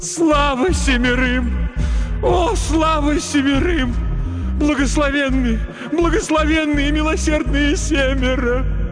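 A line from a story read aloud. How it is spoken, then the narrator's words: Sobbing. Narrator (Russian): Она все рыдала и рыдала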